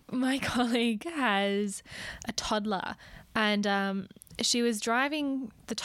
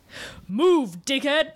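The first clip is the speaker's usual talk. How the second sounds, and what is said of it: Deep gruff voice. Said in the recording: “In a deep voice as well.”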